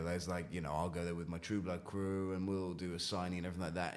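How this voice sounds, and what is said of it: British accent, no American twang. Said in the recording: “I have kept my accent ... you don't have any kind of US twang”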